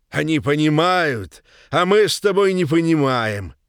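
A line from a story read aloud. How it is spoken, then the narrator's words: Loud speech. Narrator (Russian): громко заговорил он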